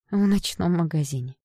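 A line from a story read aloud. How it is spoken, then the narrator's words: Sighing. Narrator (Russian): вздохнула мама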